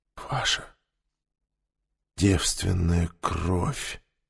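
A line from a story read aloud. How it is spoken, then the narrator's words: Reverent whisper. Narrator (Russian): благоговейно прошептал он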